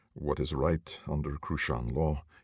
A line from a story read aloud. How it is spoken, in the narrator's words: replied calmly